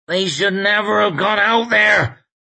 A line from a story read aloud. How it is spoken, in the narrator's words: croaked Hedges, as though he had been against it from the start